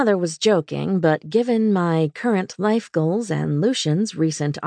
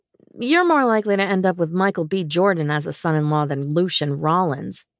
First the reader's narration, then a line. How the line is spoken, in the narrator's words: I said dryly